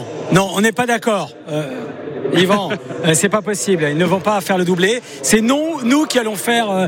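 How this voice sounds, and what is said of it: Usual voice. Nothing is said of it.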